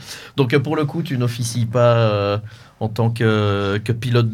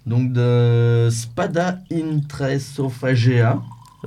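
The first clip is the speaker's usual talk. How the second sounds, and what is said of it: Exaggerated Latin-style pronunciation. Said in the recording (French): “avec mon super accent. ... J'ai un super accent latin du coup.”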